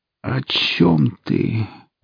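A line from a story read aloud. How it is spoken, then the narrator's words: Tired, resigned sigh. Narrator (Russian): Устало выдохнула девушка, уже попрощавшаяся с жизнью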